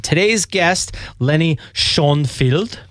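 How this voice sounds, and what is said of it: Put-on German accent. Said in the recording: “That's my German impression.”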